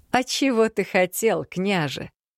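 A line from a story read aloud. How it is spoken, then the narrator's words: Slightly lowered, after laughing. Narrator (Russian): Насмеявшись, Даная чуть понизила голос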